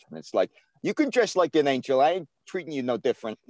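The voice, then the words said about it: Good put-on New York accent. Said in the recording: “you do a pretty good New York accent.”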